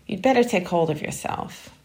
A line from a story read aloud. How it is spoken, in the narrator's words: he said scornfully